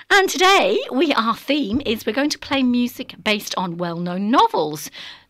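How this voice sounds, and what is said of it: Voice affected by a cold. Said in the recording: “I've got a cold.”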